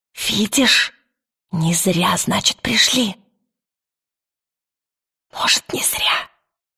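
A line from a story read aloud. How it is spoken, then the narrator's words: Dry, thin fluttering voice. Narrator (Russian): Сухо произнес Пантелеймон тонким мотыльковым голосом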